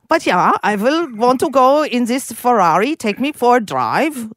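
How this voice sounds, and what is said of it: Put-on German accent. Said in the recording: “So you do the German ... Can I hear the Sergeant Schultz again? That was pretty good, though. ... This is German.”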